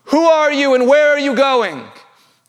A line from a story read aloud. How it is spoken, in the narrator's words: the praetorium shouts out to Rabbi Akiva